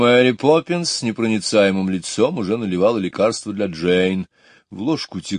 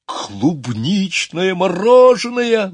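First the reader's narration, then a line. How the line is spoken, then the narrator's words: Exclamation. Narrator (Russian): воскликнул он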